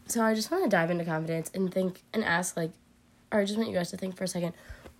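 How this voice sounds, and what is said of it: Congested, slightly sick voice. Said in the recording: “I sound a little sick. I have a bit of a head cold right now.”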